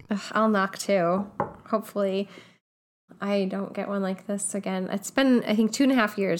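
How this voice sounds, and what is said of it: Voice sounding sick with a cold. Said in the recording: “As most of you probably can tell by my voice, I'm a little under the weather. ... You have a cold.”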